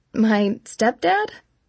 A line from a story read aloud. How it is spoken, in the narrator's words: I answered hesitantly